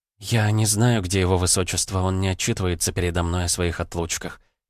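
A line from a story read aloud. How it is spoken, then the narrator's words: Quiet. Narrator (Russian): тихо проговорила она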